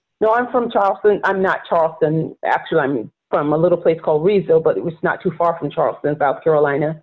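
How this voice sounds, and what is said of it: Rural South Carolina accent. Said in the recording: “as a Black woman growing up in rural South Carolina, and if you listen to me, you hear the accent”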